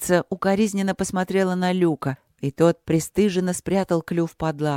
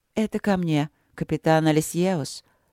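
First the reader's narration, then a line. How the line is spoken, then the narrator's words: Queen, soft. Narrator (Russian): сказала царица мягко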